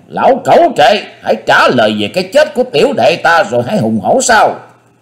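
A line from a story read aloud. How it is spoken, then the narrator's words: Roaring. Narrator (Vietnamese): Nhất Chưởng Đoạn Hồn cũng gầm vang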